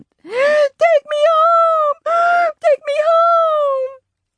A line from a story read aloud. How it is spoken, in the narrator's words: Sam screamed